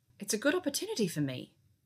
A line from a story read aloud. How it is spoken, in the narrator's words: she said sharply